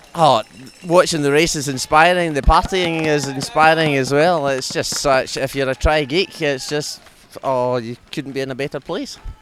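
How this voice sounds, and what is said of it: Very thick New Zealand accent. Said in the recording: “a true Kiwi next to me, and you'll see it in the accent. It's a very, very, very thick Kiwi accent.”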